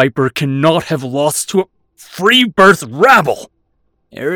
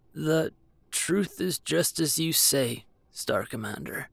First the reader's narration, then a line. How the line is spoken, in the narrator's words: Friedrich murmured